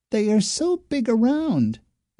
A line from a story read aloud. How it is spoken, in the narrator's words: exclaimed Speckled Egg